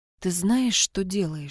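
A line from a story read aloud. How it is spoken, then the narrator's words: Whispered question. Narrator (Russian): шепотом спросил Виктор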